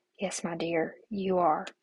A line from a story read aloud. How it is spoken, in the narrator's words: whispered